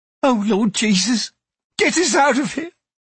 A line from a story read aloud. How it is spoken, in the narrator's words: someone whimpered